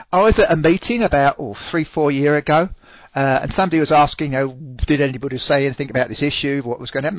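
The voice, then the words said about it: Speaks with a distinct foreign accent. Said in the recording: “I refuse to lose my accent ... people come up and say, oh, I love your accent.”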